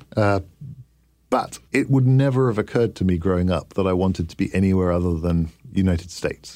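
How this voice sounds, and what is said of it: Foreign-sounding non-American accent. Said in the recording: “you can tell by my accent ... You have a funny accent ... You talk funny”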